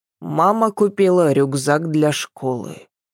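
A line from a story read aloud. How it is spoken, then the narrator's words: Gloomy. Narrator (Russian): мрачно сообщил Дим-Дим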